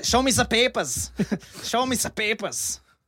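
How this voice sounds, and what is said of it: Mock German accent. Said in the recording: “my best accent ... that accent ... That's a German”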